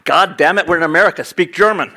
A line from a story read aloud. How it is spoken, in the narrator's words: he ... shouted